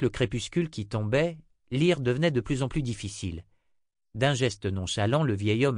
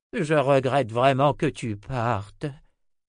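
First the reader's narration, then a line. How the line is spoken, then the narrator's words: Old man sighing. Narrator (French): soupira le vieil homme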